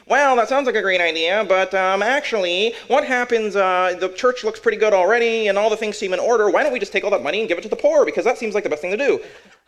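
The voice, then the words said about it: Weird character voice. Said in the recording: “I don't know why Mr. Hypothetical sounds like that. ... he has a weird voice”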